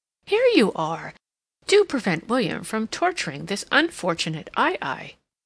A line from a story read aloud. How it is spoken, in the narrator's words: She exclaimed